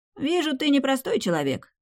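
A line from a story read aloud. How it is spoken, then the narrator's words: Wry snort. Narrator (Russian): он хмыкнул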